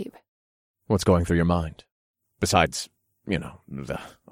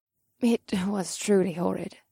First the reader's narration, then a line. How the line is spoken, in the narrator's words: Marina muttered